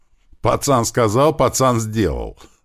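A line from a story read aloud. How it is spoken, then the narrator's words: Loud laughter. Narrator (Russian): захохотал Большой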